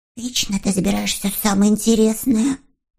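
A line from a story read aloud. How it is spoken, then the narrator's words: Muttered under breath. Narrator (Russian): бормотал он себе под нос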